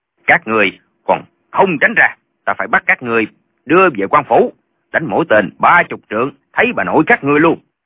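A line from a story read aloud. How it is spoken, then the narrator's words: Shouted threat. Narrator (Vietnamese): Chàng quát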